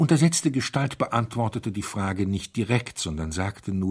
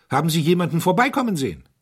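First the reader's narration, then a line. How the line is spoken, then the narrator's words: Called out. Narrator (German): rief der Herzog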